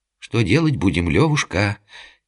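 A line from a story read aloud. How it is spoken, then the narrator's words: Quiet nervous singsong. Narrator (Russian): тихо пропел Думулло, обливаясь холодным потом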